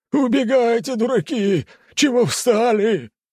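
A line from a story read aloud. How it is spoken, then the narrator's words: Shouted. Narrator (Russian): крикнул он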